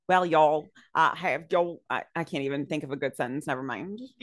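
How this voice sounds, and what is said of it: Weak put-on Southern twang. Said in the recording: “This is not going to be like a southern twang at all. So if you are from the south, I'm just apologizing now.”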